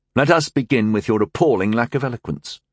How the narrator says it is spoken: Tyndall said smoothly

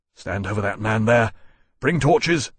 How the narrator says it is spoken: Lawrence said, gasping

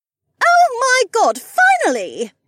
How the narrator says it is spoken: Becca squealed

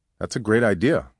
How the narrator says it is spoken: Alma said

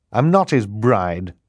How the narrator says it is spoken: Violet said bitterly

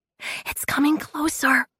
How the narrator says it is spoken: Vufril whispered

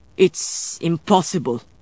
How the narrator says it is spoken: Domenico snarled

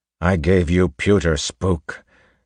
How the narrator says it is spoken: Kelsier said angrily

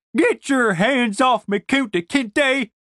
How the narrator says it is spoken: shouted, fruitlessly kicking her little fat legs

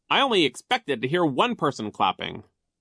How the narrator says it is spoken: he said sternly

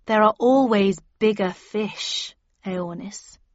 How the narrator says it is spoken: I said slowly, suddenly realizing who she was

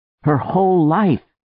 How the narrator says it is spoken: She groaned aloud

